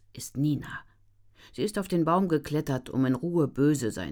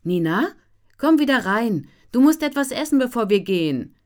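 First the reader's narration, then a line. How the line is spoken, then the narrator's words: Calling from inside house. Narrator (German): ruft Mama aus dem Haus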